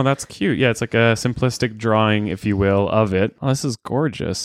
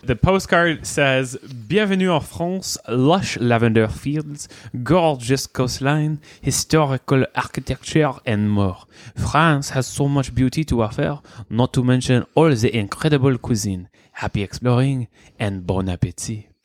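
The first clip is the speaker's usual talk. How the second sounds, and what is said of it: Fake French accent. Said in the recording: “whip out his French accent for you. That's his fake French accent”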